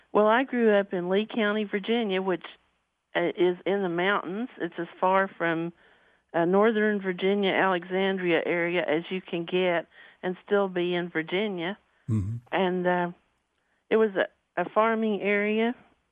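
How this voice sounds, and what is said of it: Southern Appalachian regional accent. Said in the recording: “You have a wonderful regional accent. ... my Southern accent”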